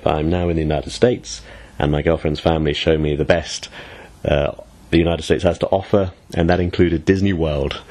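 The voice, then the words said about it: Voice affected by a cold. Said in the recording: “I hope my voice sounds okay, because I'm pretty sick with a cold right now”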